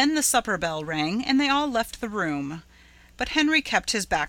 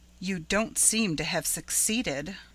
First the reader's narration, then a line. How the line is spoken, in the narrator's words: remarked Caroline dryly